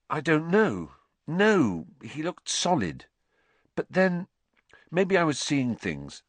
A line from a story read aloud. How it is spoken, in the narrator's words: said Harry